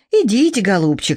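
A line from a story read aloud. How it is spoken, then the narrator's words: Sighing. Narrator (Russian): фея вздохнула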